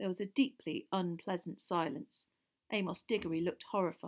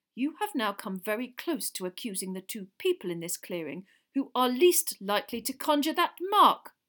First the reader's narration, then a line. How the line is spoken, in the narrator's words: barked Mr